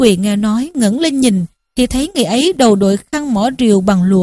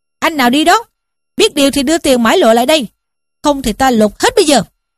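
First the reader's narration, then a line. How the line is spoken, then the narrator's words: Big man shouting. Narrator (Vietnamese): một đại hán quát lên rằng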